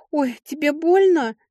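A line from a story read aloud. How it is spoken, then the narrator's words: Frightened. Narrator (Russian): испуганно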